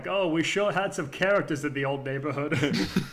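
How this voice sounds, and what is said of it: Northeastern US accent, character voice. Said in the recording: “has an accent that comes from somewhere, and I'm putting my hand over the northeast of the United States ... ALF's voice is very like”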